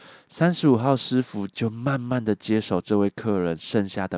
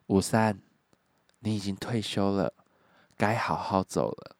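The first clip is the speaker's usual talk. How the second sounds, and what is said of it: Quiet, hushed speech. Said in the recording (Chinese): “小声的说”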